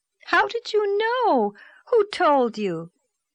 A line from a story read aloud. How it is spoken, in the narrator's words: cried Anne disappointedly, vexed that her great revelation had been anticipated